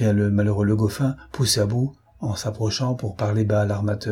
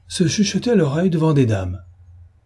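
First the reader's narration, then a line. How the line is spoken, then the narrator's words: Laughing loudly. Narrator (French): dit en riant aux éclats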